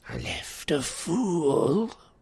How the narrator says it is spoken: snarled Grisnach

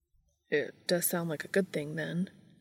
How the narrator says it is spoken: said Dean quietly

